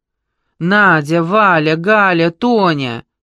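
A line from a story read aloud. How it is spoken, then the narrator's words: Shouted. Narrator (Russian): крикнула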